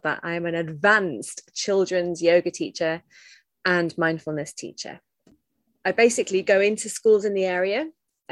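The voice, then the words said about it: British accent. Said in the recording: “You can probably tell by the weird accent, I live in the UK”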